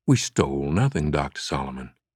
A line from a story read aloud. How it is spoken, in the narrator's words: said calmly